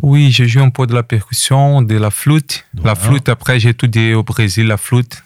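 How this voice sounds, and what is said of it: Brazilian accent speaking French. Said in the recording (French): “cette petite accent de ... qui nous vient du Brésil”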